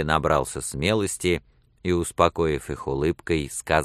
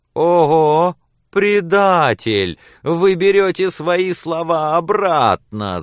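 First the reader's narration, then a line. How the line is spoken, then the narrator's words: Shouting. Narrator (Russian): закричали женщины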